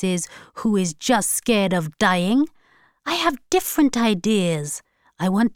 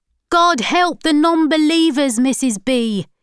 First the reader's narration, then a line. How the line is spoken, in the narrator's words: he shouted